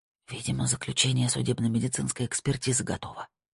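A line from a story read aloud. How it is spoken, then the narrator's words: Whisper. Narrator (Russian): прошептала она Снейдеру и Сабине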